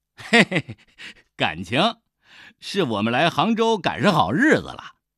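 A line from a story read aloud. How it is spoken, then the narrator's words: Laughing reply. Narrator (Chinese): 大顺 笑着回答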